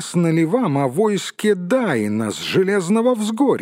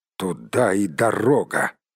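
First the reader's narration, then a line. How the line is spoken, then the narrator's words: Speaking through gritted teeth. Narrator (Russian): процедил Барт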